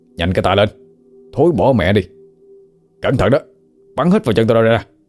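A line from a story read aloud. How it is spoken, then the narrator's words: Nasal shout. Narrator (Vietnamese): Sang tay thì bịt mũi miệng quát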